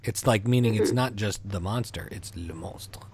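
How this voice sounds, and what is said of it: Put-on French accent. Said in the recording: “Your accent is just as good as it was in high school.”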